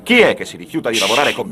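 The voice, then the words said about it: Shouting angrily. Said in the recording (Italian): “Non urlare!”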